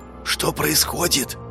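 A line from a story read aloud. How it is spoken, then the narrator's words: Cautious whisper. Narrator (Russian): На всякий случай шепотом поинтересовался Уваров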